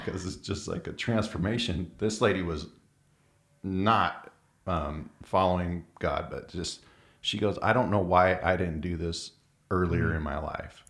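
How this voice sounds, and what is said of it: Choked-up, emotional voice. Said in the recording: “I get choked up thinking about that right now”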